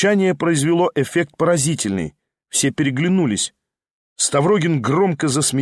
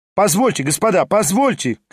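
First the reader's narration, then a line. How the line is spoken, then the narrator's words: Shouting. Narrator (Russian): кричал Хромой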